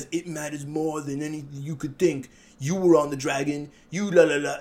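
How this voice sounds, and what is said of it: Good impression of Tyrion. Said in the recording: “That's a pretty good impersonation, by the way. That sounded pretty good.”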